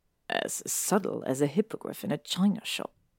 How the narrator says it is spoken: Draco mutters

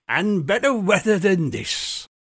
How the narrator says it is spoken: she said in a raucous, wheezy voice that suggested spirits

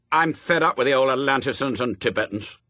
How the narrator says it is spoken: snapped Adam

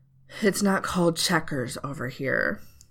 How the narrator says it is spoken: breathed out, annoyed but resigned

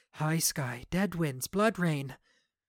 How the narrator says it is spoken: with teeth barred, whispering

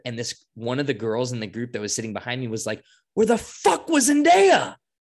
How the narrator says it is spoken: She screamed this in this packed theater

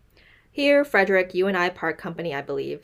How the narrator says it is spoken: said she

